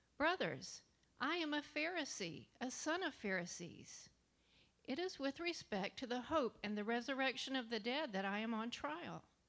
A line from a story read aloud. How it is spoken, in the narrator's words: Paul … he cried out